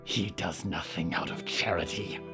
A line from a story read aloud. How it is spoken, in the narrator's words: Yuretsi hissed